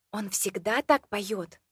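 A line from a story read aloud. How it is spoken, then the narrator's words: Whispered question. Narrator (Russian): шёпотом спросила я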